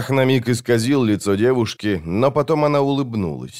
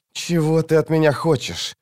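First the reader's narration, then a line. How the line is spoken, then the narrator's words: Desperate hiss. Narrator (Russian): отчаянно зашипел Крокус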